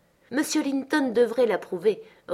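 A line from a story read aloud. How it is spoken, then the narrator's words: Decisive reply. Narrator (French): repartit d'un ton décidé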